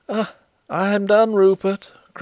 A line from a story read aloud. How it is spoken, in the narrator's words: cried a voice